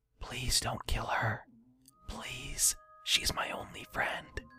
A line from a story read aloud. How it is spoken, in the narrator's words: quietly whispered to no one